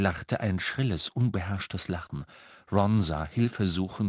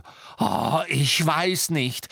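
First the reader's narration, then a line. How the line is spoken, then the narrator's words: Shouted biting sarcasm. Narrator (German): schrie Hermine mit beißendem Sarkasmus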